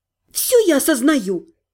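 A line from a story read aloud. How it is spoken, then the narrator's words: Sharp reply. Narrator (Russian): резко ответила я Дайкае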